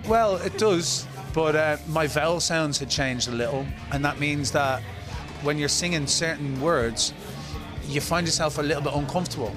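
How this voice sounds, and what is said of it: Irish accent. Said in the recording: “It still sounds very Irish to me.”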